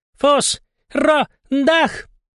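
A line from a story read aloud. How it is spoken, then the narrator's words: Loud yell. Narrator (Russian): заорал пингвин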